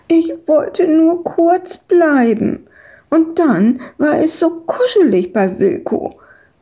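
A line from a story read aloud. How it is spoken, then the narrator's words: Whining. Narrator (German): jammerte Madita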